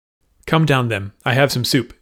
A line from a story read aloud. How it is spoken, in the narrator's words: said Gina